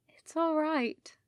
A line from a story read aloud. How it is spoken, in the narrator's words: Rodney said drowsily